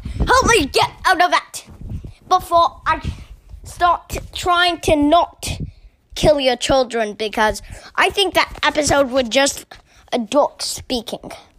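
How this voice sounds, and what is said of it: Put-on Australian accent. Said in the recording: “I'm still stuck in my Australian accent.”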